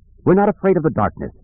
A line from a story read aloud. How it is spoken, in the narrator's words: Tion said in a firm voice